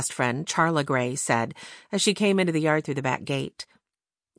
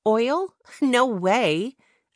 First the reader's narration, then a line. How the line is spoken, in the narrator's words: replied with a laugh